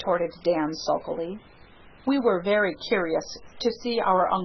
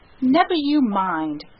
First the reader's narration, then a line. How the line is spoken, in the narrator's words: cried the Story Girl loyally